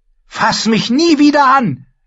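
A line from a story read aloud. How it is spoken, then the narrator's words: Shouting. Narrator (German): schrie Arrhyr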